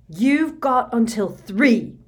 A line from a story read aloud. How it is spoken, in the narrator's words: Harry shouted